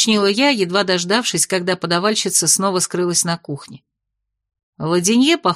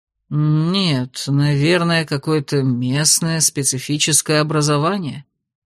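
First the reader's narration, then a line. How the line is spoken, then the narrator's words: Uncertain drawl. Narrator (Russian): протянул неуверенно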